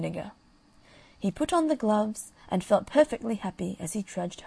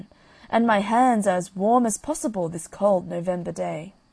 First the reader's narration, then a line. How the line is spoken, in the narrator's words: cried the man